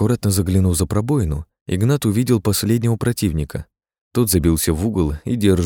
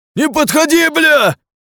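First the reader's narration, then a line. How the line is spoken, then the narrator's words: Shouting again. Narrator (Russian): вновь закричал он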